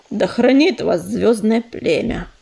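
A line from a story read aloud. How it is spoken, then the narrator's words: Muttering. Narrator (Russian): пробурчал Чернозвезд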